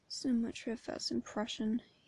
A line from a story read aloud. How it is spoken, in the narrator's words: he mutters